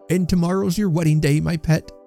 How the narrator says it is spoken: cried Trotty

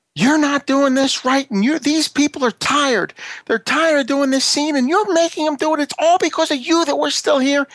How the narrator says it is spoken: screaming into the megaphone

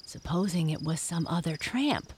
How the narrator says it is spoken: whispered Jess

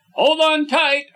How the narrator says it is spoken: I shouted

